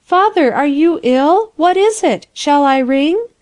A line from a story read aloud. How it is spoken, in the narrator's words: cried